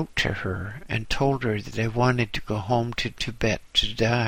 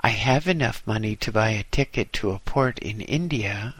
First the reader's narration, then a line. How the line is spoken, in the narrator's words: replied